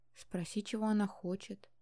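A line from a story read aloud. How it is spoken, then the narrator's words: Quiet prompting. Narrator (Russian): тихо подсказала я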